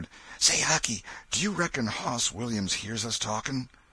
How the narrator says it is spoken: Tom whispered

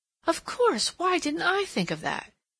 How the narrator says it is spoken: Her strained expression relaxed, and exclaiming

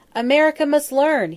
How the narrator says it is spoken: he wailed

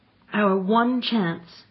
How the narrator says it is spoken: cried Anthea dramatically

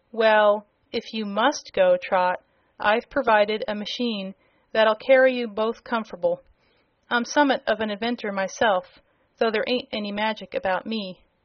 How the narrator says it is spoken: Cap'n Bill, who said with a sigh

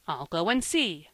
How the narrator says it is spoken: cried Joel promptly

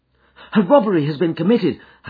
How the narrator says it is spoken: I gasped

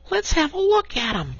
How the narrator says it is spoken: cried the rat

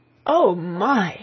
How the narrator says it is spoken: she gasped, when she had got her breath

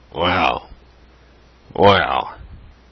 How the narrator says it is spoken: said he gruffly

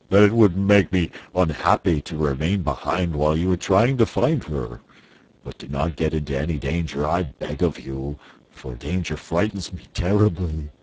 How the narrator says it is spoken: said the Cowardly Lion in his deep, rumbling voice

